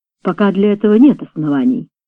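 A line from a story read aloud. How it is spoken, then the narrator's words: Plain. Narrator (Russian): сказал голос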